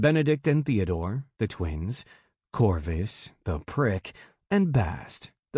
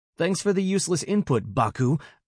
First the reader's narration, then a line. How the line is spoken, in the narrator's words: Bast snapped at Corvus